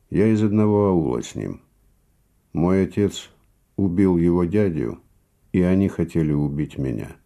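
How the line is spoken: Calm. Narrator (Russian): сказал он спокойно

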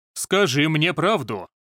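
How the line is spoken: Thunderous voice. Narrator (Russian): сказал Ли Цинхоу громоподобным голосом

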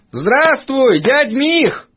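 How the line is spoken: Shouting over hammering. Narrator (Russian): прокричал Пашка, стараясь заглушить ритмичные удары кузнеца

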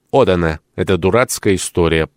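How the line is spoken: Grumble. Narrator (Russian): пробурчал

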